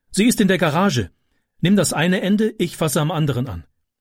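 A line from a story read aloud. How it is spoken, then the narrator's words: Called out. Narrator (German): rief sie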